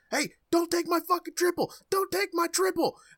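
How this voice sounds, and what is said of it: Yelling. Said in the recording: “I'm yelling”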